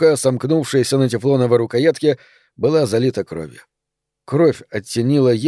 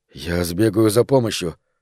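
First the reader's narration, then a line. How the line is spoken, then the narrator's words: Uncertain mutter. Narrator (Russian): пробормотал, неуверенный, что она слышит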